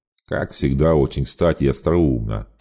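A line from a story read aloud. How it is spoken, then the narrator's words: Mocking imitation through teeth. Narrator (Russian): процедил Рамон, пародируя интонации Накаямы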